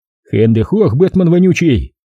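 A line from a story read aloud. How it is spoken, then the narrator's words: Gleefully angry bark. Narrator (Russian): Владислав с веселой злостью гаркнул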